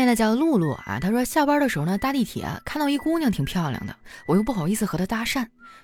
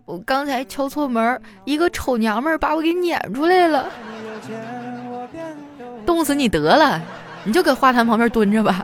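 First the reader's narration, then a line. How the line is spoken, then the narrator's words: Aggrieved, near tears. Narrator (Chinese): 老公委屈的快哭了，说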